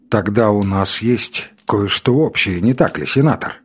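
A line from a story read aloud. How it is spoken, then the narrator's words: Calm retort. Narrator (Russian): спокойно отпарировал я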